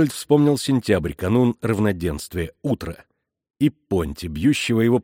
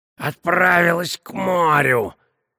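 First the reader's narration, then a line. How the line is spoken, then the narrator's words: Choking rasp while strangled. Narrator (Russian): захрипел Понти, безуспешно царапая и дергая душащую его петлю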